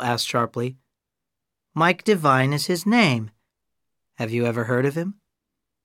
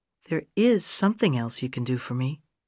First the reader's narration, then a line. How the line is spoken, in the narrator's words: she said in a quiet, warm voice